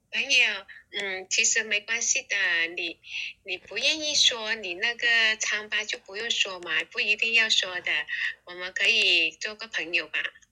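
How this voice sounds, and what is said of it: Mainland Chinese accent faking Singaporean accent. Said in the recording (Chinese): “是不是大陆人的口音？...他有要硬要装新加坡口音的那个大陆...腔”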